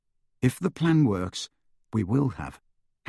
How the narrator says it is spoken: Harry continued calmly

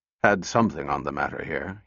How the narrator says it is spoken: he muttered

